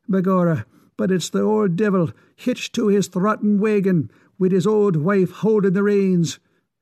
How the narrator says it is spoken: exclaimed Mickey

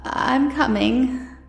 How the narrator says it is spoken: she faltered, catching his arm with unnecessary violence

